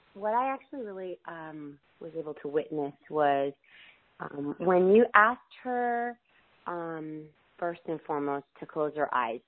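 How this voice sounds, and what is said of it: Congested, sniffly voice. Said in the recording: “my voice is, I'm getting over a cold. Sorry if I'm sniffly.”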